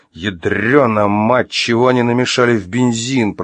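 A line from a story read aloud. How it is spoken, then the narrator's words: Groaning. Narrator (Russian): простонал Артем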